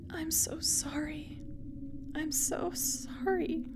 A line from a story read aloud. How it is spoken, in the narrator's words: is all I could mutter